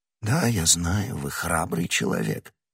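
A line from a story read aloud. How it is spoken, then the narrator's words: Almost gentle voice. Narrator (Russian): сказал кардинал почти ласковым голосом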